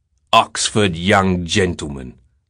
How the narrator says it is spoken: Simon said in a harsh, disgusted voice

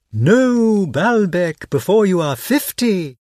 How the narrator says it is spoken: he called out to me

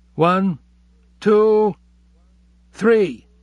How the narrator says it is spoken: Abe counted in a strained voice

